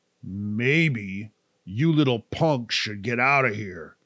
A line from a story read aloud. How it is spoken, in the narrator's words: a strange voice growled